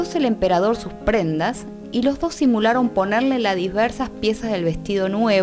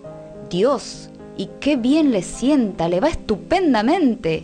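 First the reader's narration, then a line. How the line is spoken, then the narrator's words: Group exclaiming. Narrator (Spanish): exclamaban todos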